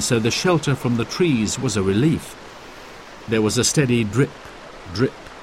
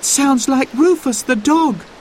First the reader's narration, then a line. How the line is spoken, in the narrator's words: cried Sarah